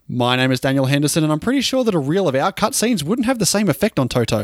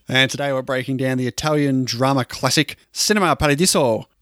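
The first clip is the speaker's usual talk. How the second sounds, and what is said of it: Put-on Italian accent. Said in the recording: “That was a brilliant Italian accent. Accent you put on there”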